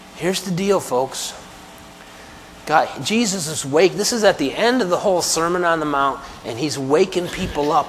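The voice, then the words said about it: Weak voice, unable to speak loudly. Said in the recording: “I don't know if that's sinking in with how my voice is sounding today. But if I were able to speak a little louder, I'd be speaking louder right now.”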